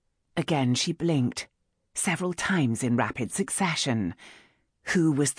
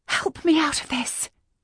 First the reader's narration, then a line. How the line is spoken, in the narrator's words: she said on a gasp